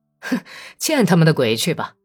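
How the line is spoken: Pained laughing through teeth. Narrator (Chinese): 克里沃什雷科夫痛苦的呲着牙，在黑暗里笑着说

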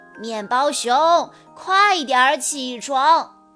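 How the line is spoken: Plain. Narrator (Chinese): 他说

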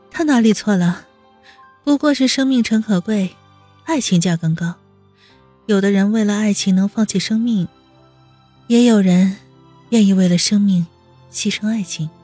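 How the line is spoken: Soft mocking laugh. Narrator (Chinese): 温之夏轻轻的笑了一声，带着一丝嘲笑

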